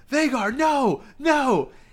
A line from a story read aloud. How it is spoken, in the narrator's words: you can hear Aemon yelling at Vhagar